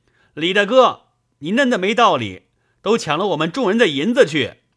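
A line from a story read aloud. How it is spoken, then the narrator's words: Shouting. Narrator (Chinese): 叫喊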